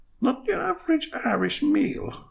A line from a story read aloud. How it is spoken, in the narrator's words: Bella squeaked at Belinda